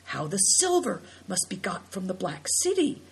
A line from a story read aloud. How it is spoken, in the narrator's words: exclaimed Big Tiger under his breath